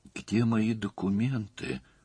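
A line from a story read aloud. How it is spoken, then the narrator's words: Mumbled. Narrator (Russian): пробормотала она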